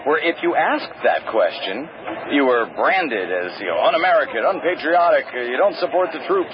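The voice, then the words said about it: Rush Limbaugh impression. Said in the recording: “I'm falling into my Rush Limbaugh impression.”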